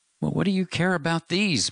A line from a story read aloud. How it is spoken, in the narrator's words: Matt cried